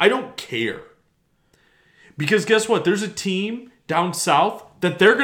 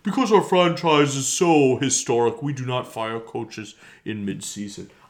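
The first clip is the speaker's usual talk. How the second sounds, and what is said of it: Imitates another person's voice. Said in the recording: “my George McCaskey impression”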